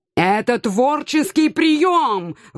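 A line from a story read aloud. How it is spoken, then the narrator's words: Loud howl. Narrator (Russian): взвыл кот, так что многие обернулись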